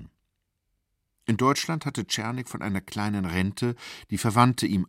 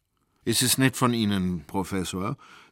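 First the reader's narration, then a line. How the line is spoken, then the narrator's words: Plain. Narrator (German): sagte Czernik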